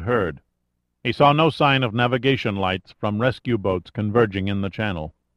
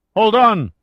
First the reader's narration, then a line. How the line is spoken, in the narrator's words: Chavez shouted